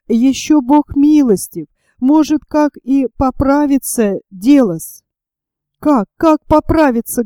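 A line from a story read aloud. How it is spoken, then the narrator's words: Tearful speech. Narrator (Russian): говорила Маша сквозь слезы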